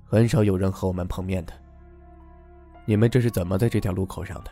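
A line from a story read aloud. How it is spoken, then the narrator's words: Gloomy, dark question. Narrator (Chinese): 他的声音十分的阴沉，他问道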